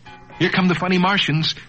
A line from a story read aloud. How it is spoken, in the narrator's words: Bobby cried